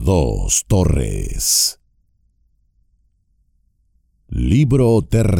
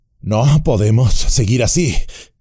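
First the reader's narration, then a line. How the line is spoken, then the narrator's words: Panted. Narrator (Spanish): jadeó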